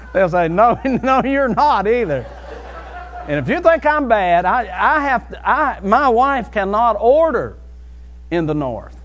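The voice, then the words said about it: West Virginia accent. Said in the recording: “That's the way we said it in West Virginia ... people will hear my accent and they'll say, where are you from?”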